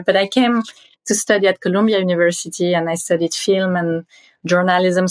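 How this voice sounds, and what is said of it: Strong French accent. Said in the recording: “I still have my very strong French accent.”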